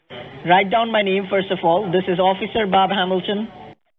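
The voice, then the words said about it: Non-English accent. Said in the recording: “Your accent is not like a Englishman.”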